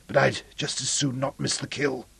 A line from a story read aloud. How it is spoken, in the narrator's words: wheezed Ferris